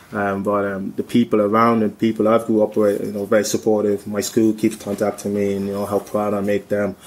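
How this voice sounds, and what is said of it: Irish Cork accent. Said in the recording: “maybe you can hear my Cork accent, it come and goes”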